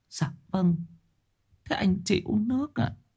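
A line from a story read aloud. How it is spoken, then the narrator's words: Tearful, quavering. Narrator (Vietnamese): Bà cụ Lĩnh mếu máo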